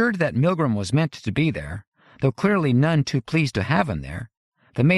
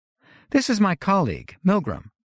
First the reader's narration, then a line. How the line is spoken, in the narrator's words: Hollis said